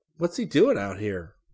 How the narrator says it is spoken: Rick asked

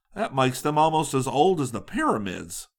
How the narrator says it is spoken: Scotty exclaimed

